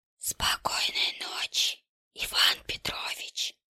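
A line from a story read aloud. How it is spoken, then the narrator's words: Whisper from behind. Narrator (Russian): шепнул кто-то за спиной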